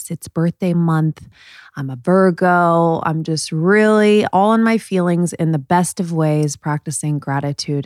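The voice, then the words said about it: Joyful, happy voice. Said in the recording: “Maybe you can hear the joy in my voice.”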